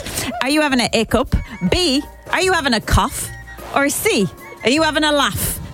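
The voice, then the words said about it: Put-on accent. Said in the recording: “I don't know why I'm doing the accent.”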